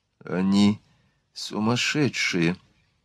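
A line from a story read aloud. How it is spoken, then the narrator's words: Bewildered whisper. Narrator (Russian): в недоумении шептала Марианна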